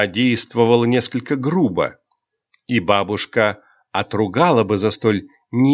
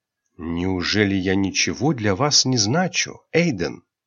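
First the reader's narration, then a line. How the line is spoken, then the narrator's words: Sincere, ingratiating whisper. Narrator (Russian): искренним, вкрадчивым шепотом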